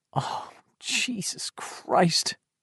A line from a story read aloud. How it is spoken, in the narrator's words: Bill said in a weak, teary voice